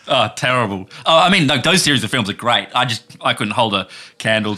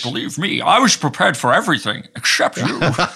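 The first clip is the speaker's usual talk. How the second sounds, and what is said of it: Scottish accent impression of an actor. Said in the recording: “Sean Connery ... at least try ... I can't do Scottish ... That's very good ... Sound more like a character from a video game”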